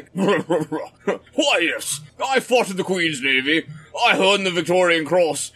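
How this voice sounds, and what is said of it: Put-on pompous British accent. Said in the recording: “in a British accent ... I'm just trying to get my pompous British up and ready”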